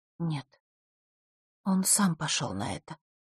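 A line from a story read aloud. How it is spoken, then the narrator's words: Very quiet. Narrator (Russian): очень тихо сказала Захара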